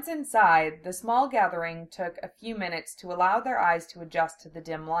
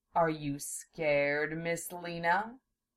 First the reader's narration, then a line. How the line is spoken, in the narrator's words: Zelos purred in her ear